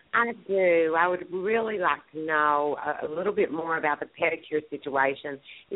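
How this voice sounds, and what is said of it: Southern US accent. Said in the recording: “I love your accent. I have to say I'm from the South also. So shout out to my Southerners.”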